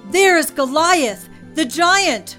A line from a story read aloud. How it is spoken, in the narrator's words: Someone yelled